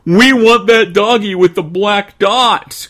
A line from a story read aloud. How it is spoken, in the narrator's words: cried a pair of tiny twins